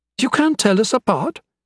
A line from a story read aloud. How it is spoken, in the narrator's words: exclaimed